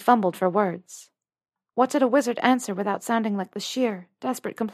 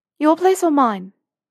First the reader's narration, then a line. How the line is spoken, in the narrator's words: she took an audible breath and blurted out